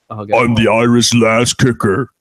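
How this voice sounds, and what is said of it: Deep bassy Irish voice impression. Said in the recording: “My impression this week is Becky Lynch ... She's got mad bass in her voice”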